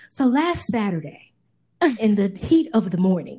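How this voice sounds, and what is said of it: Mock reporter voice. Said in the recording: “put on my my interviewer voice, ... like my reporter voice”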